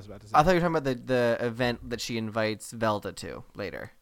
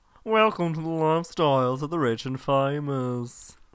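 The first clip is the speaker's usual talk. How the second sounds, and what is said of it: Imitates a TV host's voice. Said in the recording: “my Robin Leach impression ... No one can do that voice ever. I don't know why, but it's just a hard to emulate voice.”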